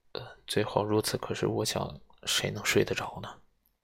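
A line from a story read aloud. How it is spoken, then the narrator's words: Murmur. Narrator (Chinese): 医生喃喃地说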